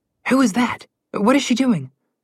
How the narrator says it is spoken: Connor whispered to his sister

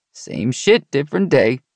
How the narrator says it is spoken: he chuckled

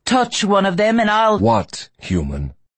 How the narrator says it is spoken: Riordan barked at Joe

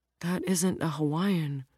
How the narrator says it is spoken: Ro muttered very quietly to herself

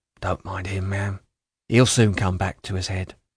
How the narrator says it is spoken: She said in a low voice

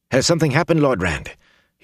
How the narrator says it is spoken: Huron asked anxiously

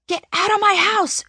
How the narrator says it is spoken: yells

